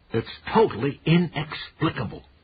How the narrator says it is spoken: Pop said, triumphantly

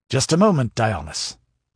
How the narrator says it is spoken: ordered Demetrio curtly

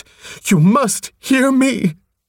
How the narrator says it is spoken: she shrieked

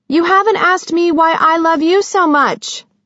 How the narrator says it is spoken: Sissy called out

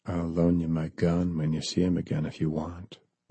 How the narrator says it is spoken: John said softly

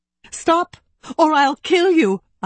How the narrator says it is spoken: I yelled

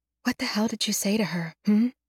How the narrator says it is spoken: I whisper at the headstone

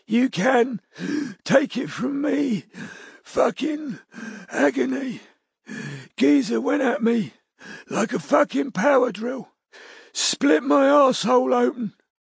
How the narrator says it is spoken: wheezed Betty Fuller

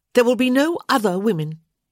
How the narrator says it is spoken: she said sharply

